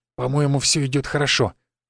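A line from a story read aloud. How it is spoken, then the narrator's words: Father's uncertain whisper. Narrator (Russian): неуверенно шепнул мне отец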